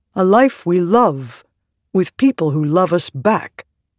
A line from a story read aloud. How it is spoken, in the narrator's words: Radiant said, her voice firm